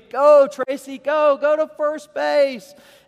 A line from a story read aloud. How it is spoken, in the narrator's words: All of us screamed